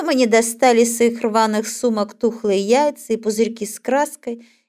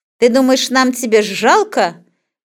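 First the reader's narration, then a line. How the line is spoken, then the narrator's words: Girl shouting in someone's face. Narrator (Russian): кричала почти в лицо упавшему парню девчонка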